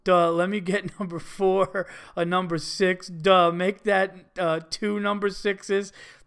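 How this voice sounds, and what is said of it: Dumb-sounding mocking voice. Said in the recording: “Imagine a dumb voice,”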